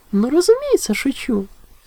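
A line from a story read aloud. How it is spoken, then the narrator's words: Innocent laughing. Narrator (Russian): С невинным видом рассмеялась кобылка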